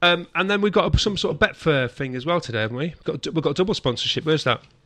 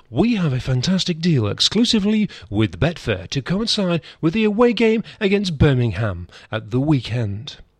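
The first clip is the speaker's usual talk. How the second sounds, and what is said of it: Exaggerated advert-reading announcer voice. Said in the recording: “I'm reading this in my best sponsorship voice.”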